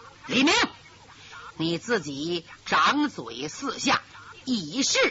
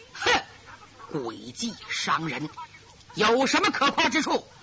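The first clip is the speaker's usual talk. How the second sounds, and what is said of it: Cold, icy voice. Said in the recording (Chinese): “有一个冷冰冰的声音说”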